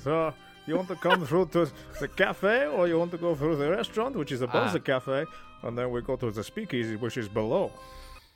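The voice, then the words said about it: Put-on Italian accent. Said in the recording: “I'm talking like this. I'm a real Italian, eh?”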